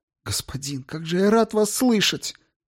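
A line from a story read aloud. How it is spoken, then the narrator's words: Groan, then barely audible whisper. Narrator (Russian): Он застонал, а когда снова заговорил, его голос превратился в едва слышный шепот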